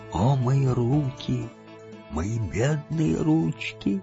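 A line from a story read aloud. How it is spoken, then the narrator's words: Moaning. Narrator (Russian): Бильбо стонал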